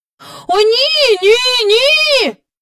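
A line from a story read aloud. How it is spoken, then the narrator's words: Shouting in chorus. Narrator (Ukrainian): закричала трійнята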